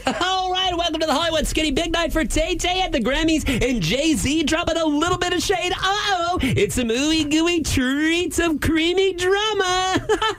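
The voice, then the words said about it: Upbeat pop radio DJ voice. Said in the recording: “do my pop radio voice ... I could be a good pop radio guy ... it was kind of good”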